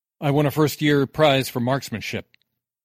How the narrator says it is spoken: Sark chuckled

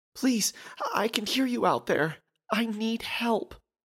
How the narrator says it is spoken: pleaded the woman

